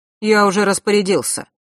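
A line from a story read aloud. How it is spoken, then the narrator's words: Sharp tone. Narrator (Russian): резко произнес Нортон-старший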